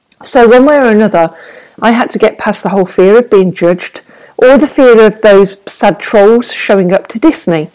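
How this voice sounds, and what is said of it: Brummie (Birmingham) English accent. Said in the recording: “I've got a Brummie accent.”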